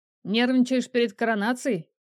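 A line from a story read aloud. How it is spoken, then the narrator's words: Short chuckle. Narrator (Russian): хохотнул Арик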